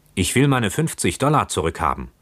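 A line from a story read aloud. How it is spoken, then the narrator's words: Shouted. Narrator (German): rief Keawe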